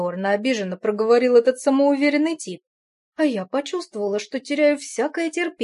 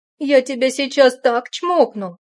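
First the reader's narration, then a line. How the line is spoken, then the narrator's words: Sharp blurting. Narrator (Russian): Резко выпалила я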